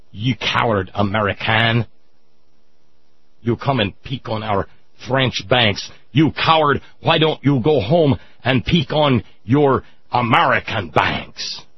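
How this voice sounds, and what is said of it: Stereotypical put-on French accent. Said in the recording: “an almost stereotypical Hollywood movie French accent”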